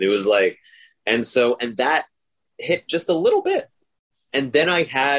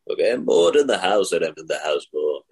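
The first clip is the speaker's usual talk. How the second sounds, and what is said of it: Obi-Wan Kenobi character impression. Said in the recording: “I did an impression of Ben Kenobi doing that song.”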